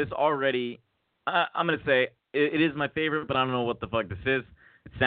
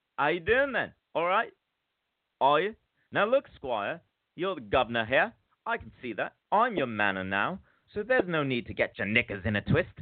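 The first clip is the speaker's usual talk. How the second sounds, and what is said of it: Put-on Cockney accent. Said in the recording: “trying a Cockney accent because it seems like he's got one”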